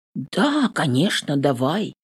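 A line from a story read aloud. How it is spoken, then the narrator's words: Hoarse reply. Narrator (Russian): хрипло отзываюсь я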